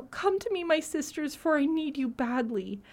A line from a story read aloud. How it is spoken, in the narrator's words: the poor girl heard this, she wept bitterly and cried out